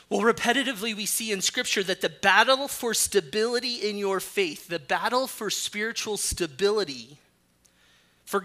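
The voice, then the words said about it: Rough, allergy-affected voice. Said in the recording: “I am perfectly healthy other than allergies. So my voice is a little, I feel great, even if I sound horrible.”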